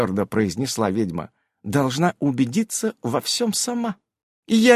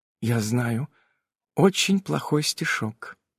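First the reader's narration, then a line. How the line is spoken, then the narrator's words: Whisper into ear. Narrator (Russian): прошептала она ему в ухо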